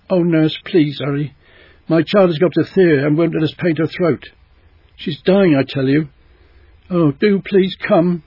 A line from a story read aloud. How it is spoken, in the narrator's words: in such a tearful, pleading voice